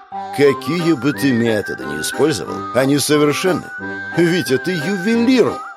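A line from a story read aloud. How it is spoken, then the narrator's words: Exclaimed. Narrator (Russian): Воскликнул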